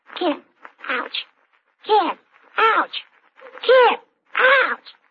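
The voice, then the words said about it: Animal noise impression. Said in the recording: “my animal impersonation”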